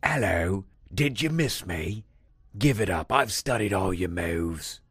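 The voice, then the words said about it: Bad put-on Australian accent. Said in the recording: “That is probably an awful Australian accent.”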